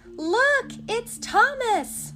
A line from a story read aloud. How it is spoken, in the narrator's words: they cried